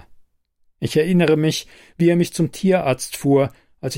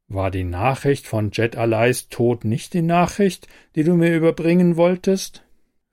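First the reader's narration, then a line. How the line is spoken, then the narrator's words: Plain. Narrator (German): fragt Raphael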